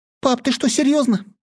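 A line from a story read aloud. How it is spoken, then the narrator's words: Frightened squeak. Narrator (Russian): испуганно пискнула Трасси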